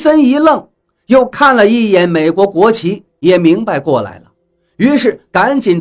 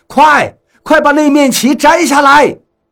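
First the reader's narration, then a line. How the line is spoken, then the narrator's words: Shouting. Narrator (Chinese): 我对雷森喊道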